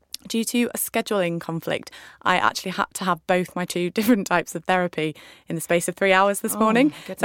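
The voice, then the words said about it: Hoarse voice. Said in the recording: “I'm just going to apologise for my hoarse voice today.”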